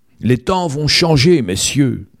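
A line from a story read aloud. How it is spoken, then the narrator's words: Shouting. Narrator (French): criait Glenn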